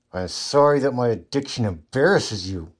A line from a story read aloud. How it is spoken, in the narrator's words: Riley snapped through gritted teeth